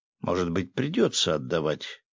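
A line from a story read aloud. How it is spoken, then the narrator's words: Exclamation. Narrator (Russian): воскликнула Катя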